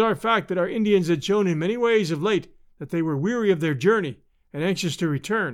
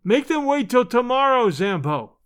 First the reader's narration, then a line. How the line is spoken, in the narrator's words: I shouted